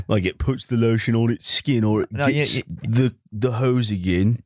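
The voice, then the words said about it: Put-on Cockney accent. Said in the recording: “Why'd I make him Cockney?”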